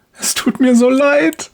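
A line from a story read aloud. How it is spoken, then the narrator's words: Woman sobbing. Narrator (German): schluchzt die Frau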